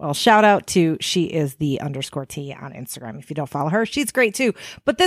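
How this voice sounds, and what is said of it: Usual voice. Nothing is said of it.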